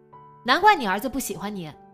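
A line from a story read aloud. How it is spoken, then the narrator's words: Shouting from behind. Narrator (Chinese): 孙淼在后面喊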